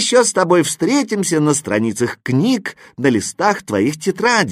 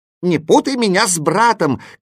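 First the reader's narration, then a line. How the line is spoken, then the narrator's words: Shouting. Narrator (Russian): кричал восклицательный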